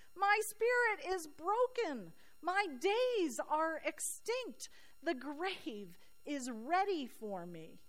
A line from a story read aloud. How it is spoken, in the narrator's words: Job screams